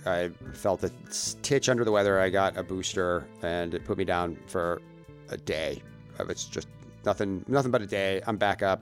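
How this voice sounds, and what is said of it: Deep, slightly off voice. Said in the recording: “My voice is a little bit off this week... it settled in my lungs and my voice is a little bit off... it's a good deep voice... It's deep... Silky”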